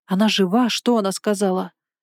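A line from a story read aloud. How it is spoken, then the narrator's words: Breathless. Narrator (Russian): Я буквально выдохнула слова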